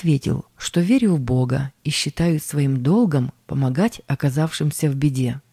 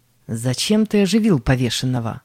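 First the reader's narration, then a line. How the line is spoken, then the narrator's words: Two prisoners, stern question. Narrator (Russian): двое заключенных и строго спросили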